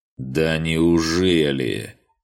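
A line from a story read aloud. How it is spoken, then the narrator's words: Drawled. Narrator (Russian): протянул Кучьер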